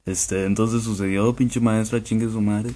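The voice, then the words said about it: Deep announcer voice. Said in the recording (Spanish): “es tu voz grave. Lo, lo más grave que puedas ... voz de locutor ... aún más grave pues”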